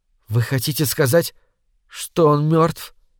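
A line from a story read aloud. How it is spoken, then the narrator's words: Barely audible. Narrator (Russian): еле слышно проговорила Лори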